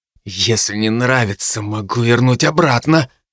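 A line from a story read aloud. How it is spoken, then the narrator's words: Hissed. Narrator (Russian): прошипел Дарт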